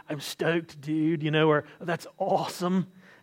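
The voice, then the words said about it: Put-on California surfer accent. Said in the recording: “my best California impression as a Southerner”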